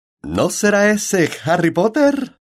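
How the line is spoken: Emphatic shout. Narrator (Spanish): gritó con rotundidad

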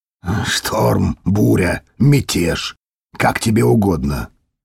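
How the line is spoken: Muffled, hollow reply. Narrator (Russian): глухо ответил Дитер

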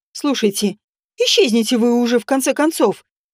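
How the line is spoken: Angry. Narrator (Russian): сердито сказала

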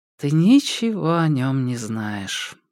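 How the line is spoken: Sad smiling. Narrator (Russian): грустно улыбнулась Джада

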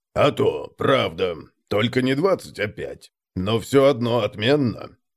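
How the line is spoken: Proud deep bass. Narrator (Russian): с заметной гордостью пробасил Конрад

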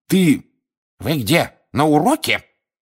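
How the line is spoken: Sharp shout, professor. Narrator (Russian): прикрикнула профессор Грабли-Дёрк

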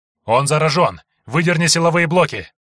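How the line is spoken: Shouted. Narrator (Russian): крикнул Андрей Ключу

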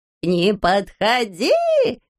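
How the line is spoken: Shrill squealing. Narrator (Russian): визжал Пончик

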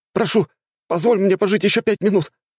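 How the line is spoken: Tearful pleading, young man. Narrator (Russian): взмолился и без того бледный парень, а из глаз его потекли слезы

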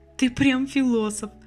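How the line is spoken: Laughing. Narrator (Russian): засмеялась Лена

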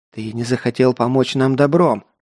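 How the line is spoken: Spitting hiss, elder. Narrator (Russian): брызгая слюной, шипел старший

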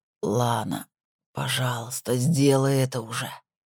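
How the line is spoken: Quiet moan. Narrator (Russian): тихо простонал Колин

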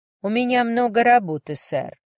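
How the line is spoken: Cold woman's reply. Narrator (Russian): все так же холодно ответила женщина

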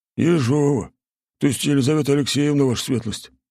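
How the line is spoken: Breathless. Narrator (Russian): выдохнул Олег

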